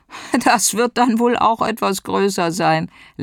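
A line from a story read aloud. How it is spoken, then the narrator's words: Laughing. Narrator (German): lachte einer der Hellseher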